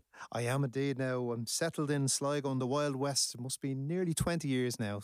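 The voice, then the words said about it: Dublin Irish accent. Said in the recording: “You're actually a dub. And a lot of people say that you definitely can't, haven't lost the accent”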